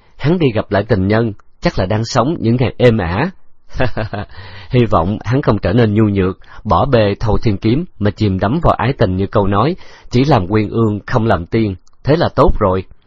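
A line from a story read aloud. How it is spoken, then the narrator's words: Smiling reply. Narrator (Vietnamese): Khấu Trọng mỉm cười đáp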